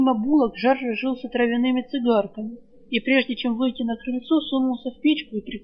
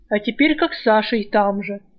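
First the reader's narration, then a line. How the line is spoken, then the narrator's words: Snorting thief. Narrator (Russian): фыркнул вор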